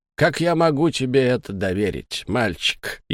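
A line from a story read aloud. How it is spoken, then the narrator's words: Snide question. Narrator (Russian): ехидно осведомился монокль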